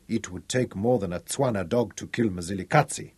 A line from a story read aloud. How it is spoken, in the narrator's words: whispered